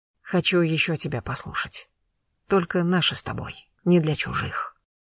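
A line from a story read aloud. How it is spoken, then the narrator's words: Whisper. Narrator (Russian): шепнул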